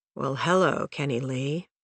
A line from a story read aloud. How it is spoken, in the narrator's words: she mumbled